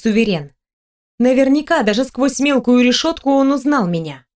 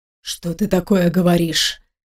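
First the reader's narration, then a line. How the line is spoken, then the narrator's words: Near whisper. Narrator (Russian): практически прошептал Дэн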